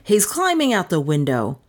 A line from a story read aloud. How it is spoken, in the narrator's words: Doan exclaimed